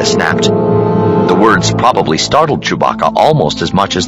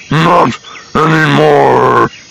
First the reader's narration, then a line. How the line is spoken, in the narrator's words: a Wookiee voice rumbled